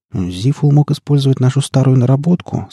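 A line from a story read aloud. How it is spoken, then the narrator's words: Plain. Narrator (Russian): сказала Лоя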